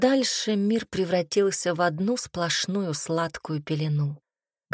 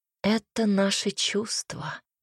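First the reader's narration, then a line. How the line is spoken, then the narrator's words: Whisper in ear. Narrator (Russian): кто-то шепнул на ухо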